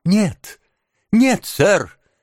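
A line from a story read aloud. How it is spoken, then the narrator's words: Sobbing exclamation. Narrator (Russian): всхлипывая, воскликнул Оливер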